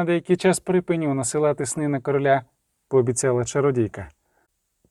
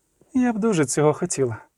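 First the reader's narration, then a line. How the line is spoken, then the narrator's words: Sighing. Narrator (Ukrainian): зітхнула Зулейка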